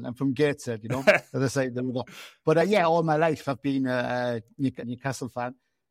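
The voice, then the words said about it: Northeast English Gateshead accent. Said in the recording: “You can probably hear from my accent. I haven't got a Sunderland accent at all. In fact, I've got a Felon accent.”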